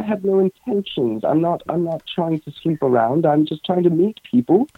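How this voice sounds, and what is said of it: South African English accent. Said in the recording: “love your British accent. I say it's not British; it's South African”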